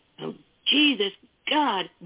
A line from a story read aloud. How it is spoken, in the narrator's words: Boyle cried